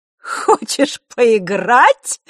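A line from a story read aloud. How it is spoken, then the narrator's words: Laughing chuckle. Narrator (Russian): Елена хохотнула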